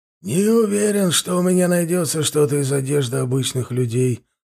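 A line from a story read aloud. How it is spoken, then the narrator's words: Old man's bewildered mumble. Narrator (Russian): растерянно пробормотал старик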